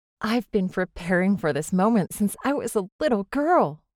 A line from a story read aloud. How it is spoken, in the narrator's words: Zélie exclaimed to the Mother Superior